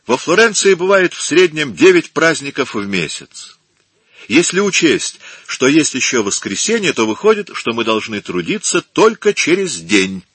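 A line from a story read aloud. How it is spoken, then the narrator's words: Cheerful addition. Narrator (Russian): весело добавил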